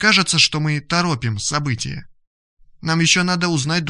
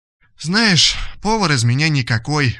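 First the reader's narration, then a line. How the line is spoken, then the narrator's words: Sighing. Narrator (Russian): вздохнула Ада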